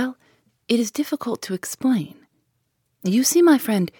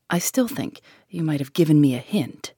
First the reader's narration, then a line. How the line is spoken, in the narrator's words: I grumbled